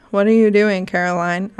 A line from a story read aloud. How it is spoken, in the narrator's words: I asked her